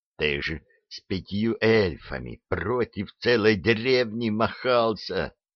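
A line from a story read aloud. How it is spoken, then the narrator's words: Angry whisper. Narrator (Russian): сердито прошептал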